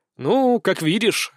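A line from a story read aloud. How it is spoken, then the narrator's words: Smirking grunt. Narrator (Russian): хмыкнул я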